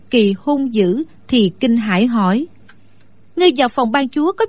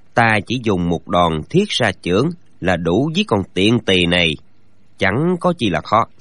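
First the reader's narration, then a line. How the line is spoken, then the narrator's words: Low voice. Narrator (Vietnamese): Gã nhỏ giọng nói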